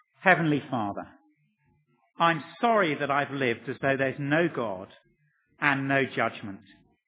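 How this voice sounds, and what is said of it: Slow, deliberate speech. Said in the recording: “I'm now going to say it slowly.”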